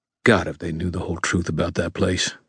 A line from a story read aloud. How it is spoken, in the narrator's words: Ebenezer muttered